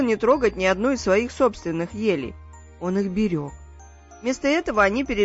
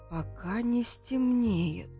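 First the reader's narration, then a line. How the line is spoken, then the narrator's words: Whisper. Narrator (Russian): прошептала Фрёкинс-Норк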